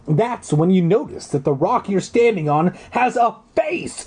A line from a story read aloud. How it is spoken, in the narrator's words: You yell